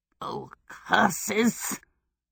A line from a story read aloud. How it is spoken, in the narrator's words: Calcifer spat